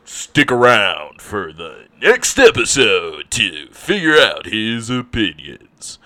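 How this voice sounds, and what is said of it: Dramatic TV announcer voice. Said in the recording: “my announcer voice”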